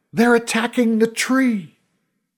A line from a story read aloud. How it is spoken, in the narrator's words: Someone shouted